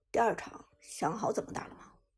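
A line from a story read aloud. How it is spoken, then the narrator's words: Cold question. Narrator (Chinese): 将军声音冰冷的问道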